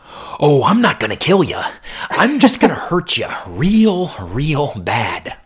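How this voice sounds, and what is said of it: Impression of the Joker's voice. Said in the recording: “my Leto as Joker impression”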